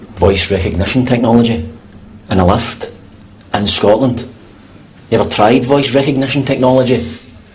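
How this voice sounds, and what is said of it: Scottish accent. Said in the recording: “They don't do Scottish accents.”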